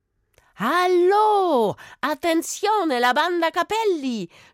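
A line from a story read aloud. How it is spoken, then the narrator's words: Girl shouting. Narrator (German): schrie das Mädchen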